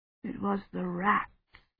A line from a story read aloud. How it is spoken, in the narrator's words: Badri murmured